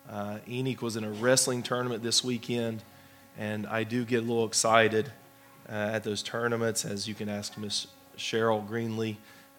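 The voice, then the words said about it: Hoarse voice. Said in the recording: “Please forgive my voice... my voice is a little bit hoarse”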